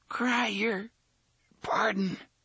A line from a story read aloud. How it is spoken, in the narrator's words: the man with the frizzy red hair gasped